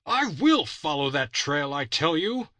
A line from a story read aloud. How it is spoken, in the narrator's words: he cried